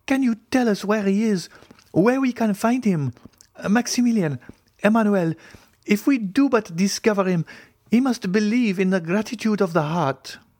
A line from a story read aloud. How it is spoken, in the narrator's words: cried